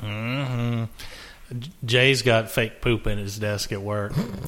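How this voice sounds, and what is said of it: Usual voice. Nothing is said of it.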